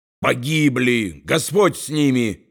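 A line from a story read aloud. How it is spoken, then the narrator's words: Furious barking poet. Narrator (Russian): яростно рявкнул поэт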